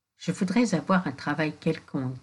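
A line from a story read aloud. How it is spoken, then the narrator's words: Plain. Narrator (French): dit Pierre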